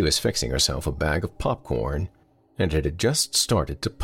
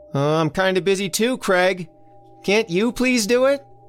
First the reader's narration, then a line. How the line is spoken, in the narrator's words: Elsie hollered back